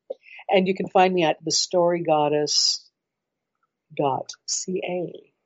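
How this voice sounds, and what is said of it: Deliberately slow, careful speech. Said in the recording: “very carefully said it slowly”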